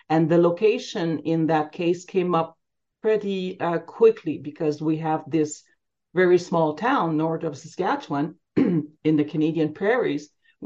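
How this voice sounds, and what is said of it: Slight French accent. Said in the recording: “a slight French accent there”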